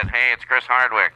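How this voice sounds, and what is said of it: Fake Chris Hardwick phone voice. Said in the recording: “I forgot he always talks like it's the 1970s ... This is my phone voice ... you also prepared a fake Chris Hardwick call”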